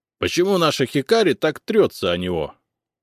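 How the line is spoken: Displeased snort. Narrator (Russian): Он недовольно хмыкнул

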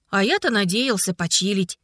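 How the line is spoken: Grumble under breath. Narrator (Russian): пробурчал Ларик себе под нос

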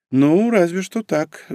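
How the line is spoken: Sighing. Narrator (Russian): вздохнула Норико

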